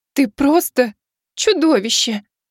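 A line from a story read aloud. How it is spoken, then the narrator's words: Sobbing. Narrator (Russian): всхлипнула Азимандия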